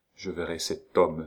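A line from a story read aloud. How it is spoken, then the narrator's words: Murmured. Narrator (French): murmura-t-elle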